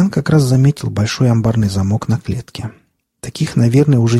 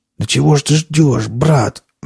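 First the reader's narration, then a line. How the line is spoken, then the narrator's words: Hoarse coughing man. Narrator (Russian): мужик хрипло закашлялся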